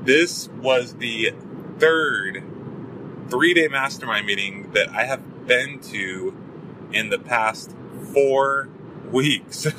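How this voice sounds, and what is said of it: Sore, hoarse voice. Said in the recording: “My throat, you can probably tell, my throat is sore and hoarse.”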